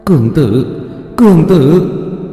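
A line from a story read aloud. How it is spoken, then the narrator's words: Trembling voice from behind. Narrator (Vietnamese): Một âm thanh run rẩy từ phía sau vang lên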